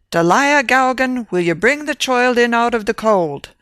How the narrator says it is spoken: cried an irate voice from within

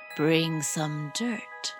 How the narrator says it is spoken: he whispered to Molly Mole

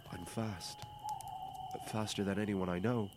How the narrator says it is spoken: Thjalfi stepped forward nervously and said

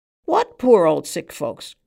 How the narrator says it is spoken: cried the man on the stool

